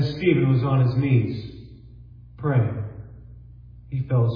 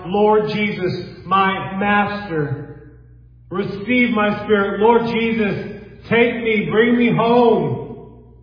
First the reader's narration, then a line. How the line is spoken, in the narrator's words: Stephen cried out